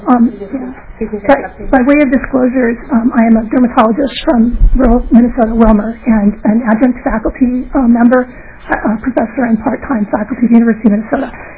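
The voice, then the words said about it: Strained voice worn from yelling. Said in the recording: “I apologize for my voice. I sacrificed it for the Gophers last night, but obviously didn't yell loud enough”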